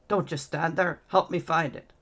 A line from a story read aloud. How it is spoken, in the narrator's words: Edgar snarled